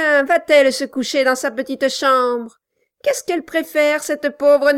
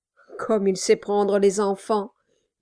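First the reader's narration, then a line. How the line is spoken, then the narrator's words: Confiding murmur. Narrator (French): murmura Brass, échangeant une sorte de confidence avec le plafond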